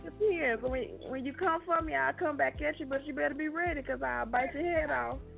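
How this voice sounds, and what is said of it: Regional American accent. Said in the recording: “you got the accent going on”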